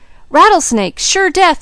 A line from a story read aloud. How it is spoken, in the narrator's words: yelled Jud